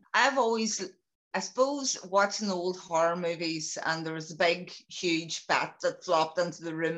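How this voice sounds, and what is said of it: Strong regional accent, quick speech. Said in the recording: “hopefully everybody understands my accent too. So if I go too quick,”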